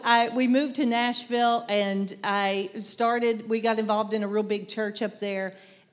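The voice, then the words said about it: Southern US accent. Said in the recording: “I'm sure you guys could tell I'm from the South. I don't hear my accent, but everybody says I have one.”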